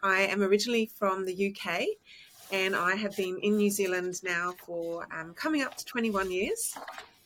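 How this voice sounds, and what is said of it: Mixed New Zealand and English accent. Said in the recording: “that explains the accent. I can hear a bit of Kiwi and a bit of English as well”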